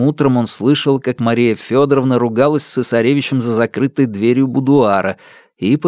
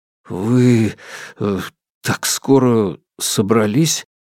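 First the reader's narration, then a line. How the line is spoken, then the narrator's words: Hesitant mutter. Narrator (Russian): пробормотал Алексей, вспомнив, наконец, как говорить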